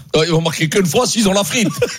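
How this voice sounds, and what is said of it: Put-on Saint-Etienne accent. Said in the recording (French): “Pourquoi tu fais l'accent Saint-Etienne?”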